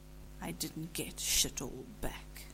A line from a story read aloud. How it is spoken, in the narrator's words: Cass said in a growl